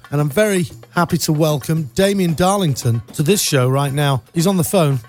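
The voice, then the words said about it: British accent. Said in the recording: “my British accent ... a voice from back home”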